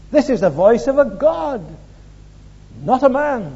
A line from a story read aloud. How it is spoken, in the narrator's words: they cried